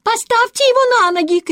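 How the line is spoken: Woman shouting. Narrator (Russian): крикнула другая

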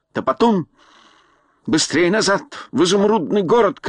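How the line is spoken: Shouting. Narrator (Russian): крикнул он

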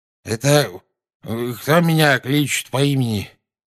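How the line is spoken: Sleepy mumble. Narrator (Russian): сонно пробормотал наземникус

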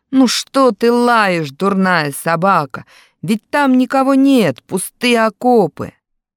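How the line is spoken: Deliberately loud. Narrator (Russian): Сергей тоже нарочно громко сказал

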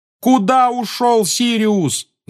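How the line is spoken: Loud yelling. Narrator (Russian): завопил Гарри ему вслед

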